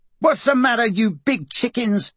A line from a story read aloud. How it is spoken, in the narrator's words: Emma yelled